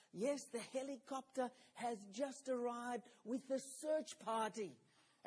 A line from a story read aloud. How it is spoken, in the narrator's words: Back came the whispered response